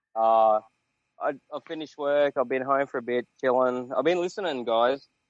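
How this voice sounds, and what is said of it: Australian accent. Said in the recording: “I'm from Sydney. ... I'm trying to recognize the accent.”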